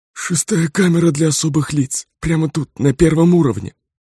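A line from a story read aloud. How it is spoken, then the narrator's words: Wheezy hoarse voice. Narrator (Russian): просипел дознаватель и палач в одном лице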